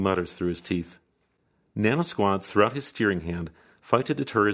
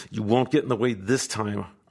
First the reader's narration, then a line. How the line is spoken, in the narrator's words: our host hisses out